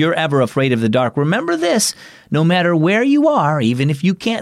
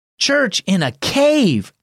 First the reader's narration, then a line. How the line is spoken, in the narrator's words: exclaimed Elias